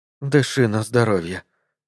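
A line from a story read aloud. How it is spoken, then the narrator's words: Whispered. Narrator (Russian): прошептала Бобби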